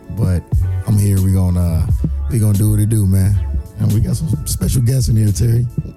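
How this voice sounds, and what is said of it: Hoarse, worn-out voice. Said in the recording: “forgive me for the voice, man. My voice is gone. Gone shot.”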